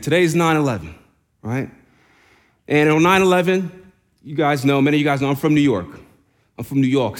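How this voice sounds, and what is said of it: New York accent. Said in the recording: “See, the accent came out there. From New York.”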